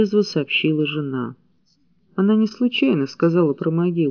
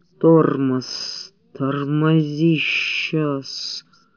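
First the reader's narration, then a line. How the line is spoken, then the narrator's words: Hissing woman. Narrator (Russian): шипела она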